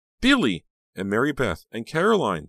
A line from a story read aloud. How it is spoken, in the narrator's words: Danielle gasped out